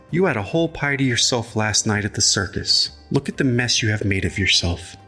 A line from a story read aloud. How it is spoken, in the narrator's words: said with a sigh